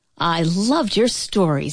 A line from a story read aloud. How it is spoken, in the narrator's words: he exclaimed